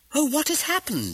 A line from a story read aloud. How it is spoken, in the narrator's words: exclaimed